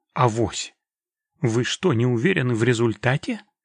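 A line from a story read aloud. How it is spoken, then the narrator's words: Bewildered. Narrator (Russian): промолвил Гиларди, растерянно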